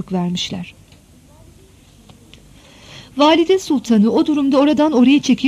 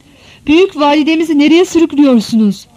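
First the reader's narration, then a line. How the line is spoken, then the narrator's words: Group shouting. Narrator (Turkish): diye bağırmışlar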